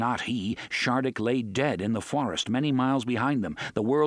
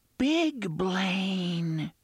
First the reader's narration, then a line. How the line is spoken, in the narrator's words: the unseen voice whispered